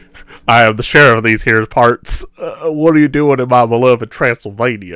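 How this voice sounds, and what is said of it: Put-on cowboy sheriff accent. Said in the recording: “cowboy-centric ... you're the sheriff of Transylvania”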